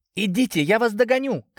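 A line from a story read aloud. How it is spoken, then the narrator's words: Cat shouting. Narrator (Russian): крикнула кошка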